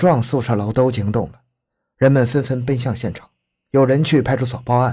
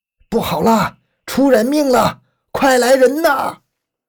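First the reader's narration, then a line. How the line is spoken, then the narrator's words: Terrified old man shouting. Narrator (Chinese): 刘大爷惊恐地喊叫起来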